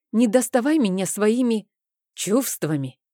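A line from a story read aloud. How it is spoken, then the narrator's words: Angry prompting. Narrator (Russian): также зло подсказал Рейн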